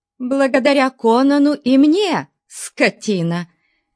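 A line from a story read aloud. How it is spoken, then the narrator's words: Shout, shaking with anger, shame. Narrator (Russian): крикнула Валерия, содрогаясь от гнева и стыда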